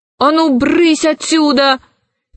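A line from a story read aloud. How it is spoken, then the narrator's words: Shouting. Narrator (Russian): крикнула она червяку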